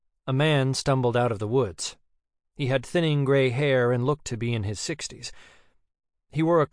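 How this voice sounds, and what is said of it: Usual voice. Nothing is said of it.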